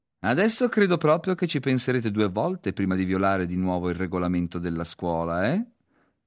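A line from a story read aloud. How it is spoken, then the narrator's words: Mocking tone. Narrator (Italian): fece in tono di scherno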